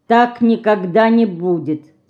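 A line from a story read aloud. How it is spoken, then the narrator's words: Calm. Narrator (Russian): спокойно сказал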